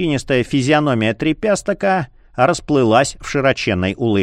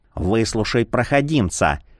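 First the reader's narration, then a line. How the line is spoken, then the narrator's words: Ghostly whisper. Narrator (Russian): шепнул призрак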